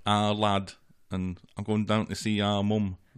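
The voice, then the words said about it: Poor put-on Mancunian accent. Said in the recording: “That was a particularly bad Mancunian accent.”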